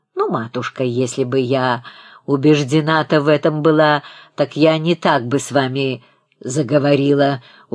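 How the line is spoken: Threatening tone. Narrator (Russian): угрожающим тоном произнесла свекровь

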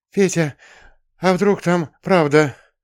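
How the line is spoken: Nervous breathy exhale. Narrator (Russian): Селедка нервно выдохнула мне в спину

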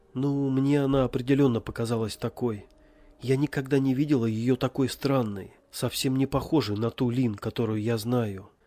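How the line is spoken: Sad. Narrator (Russian): сказала Ребекка, печально покачав головой

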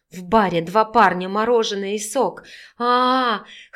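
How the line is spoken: Wheezing and whimpering. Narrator (Russian): хрипела она в перерывах с искулением

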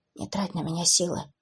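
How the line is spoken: Barely audible whisper. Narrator (Russian): еле слышно прошептал блондин

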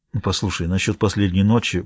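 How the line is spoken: Muttered. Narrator (Russian): пробормотал

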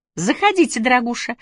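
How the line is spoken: Cheerful chirping young woman. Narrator (Russian): весело прощебетала девушка

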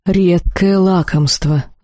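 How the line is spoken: Sighing demon. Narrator (Russian): вздохнул демон

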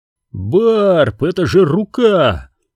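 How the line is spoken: Yelling. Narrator (Russian): завопил Ренни

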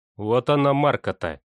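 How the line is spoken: Dejected pastor. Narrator (Russian): упавшим голосом сказал пастор

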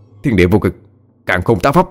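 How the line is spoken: Shout. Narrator (Vietnamese): hét lên

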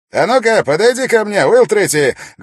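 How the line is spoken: Loud call. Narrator (Russian): громко позвал он

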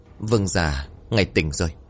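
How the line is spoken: Trembling servant. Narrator (Vietnamese): Người hầu cận bên giường giọng run rẩy

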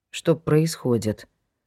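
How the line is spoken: Lifeless flat voice. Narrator (Russian): спросил он безжизненным голосом

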